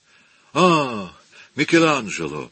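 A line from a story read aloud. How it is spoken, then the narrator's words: Exclaimed. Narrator (Russian): воскликнул Галли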